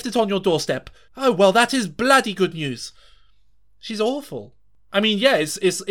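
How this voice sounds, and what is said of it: Usual voice. Nothing is said of it.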